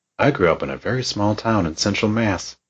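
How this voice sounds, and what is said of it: Put-on Southern accent. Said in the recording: “there is no Southern accent in Spencer, Massachusetts ... They don't talk with a Southern accent”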